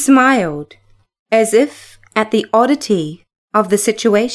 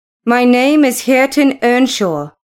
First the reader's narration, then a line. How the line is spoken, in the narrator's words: growled the youth